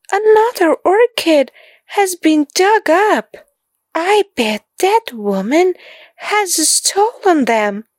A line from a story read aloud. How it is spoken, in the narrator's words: gasped Solly